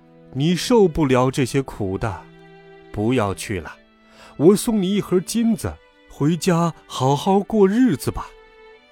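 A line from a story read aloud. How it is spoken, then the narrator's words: Old woman, smiling. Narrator (Chinese): 老婆婆笑着说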